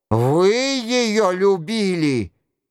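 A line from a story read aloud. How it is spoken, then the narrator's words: Terrible cry. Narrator (Russian): Нострадамус страшно вскрикнул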